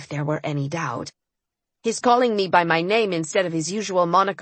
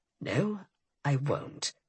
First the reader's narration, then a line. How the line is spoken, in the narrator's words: he said in a low, steady tone